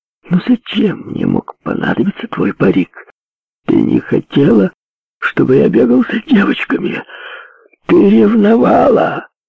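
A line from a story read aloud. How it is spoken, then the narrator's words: Faint joyless giggle. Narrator (Russian): Она чуть слышно хихикнула, но ей вовсе не было весело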